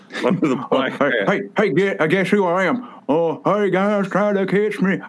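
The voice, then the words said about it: Imitates a cartoon character voice. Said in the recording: “I do my family guy impression”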